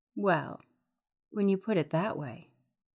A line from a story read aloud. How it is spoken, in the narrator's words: said in a seductive tone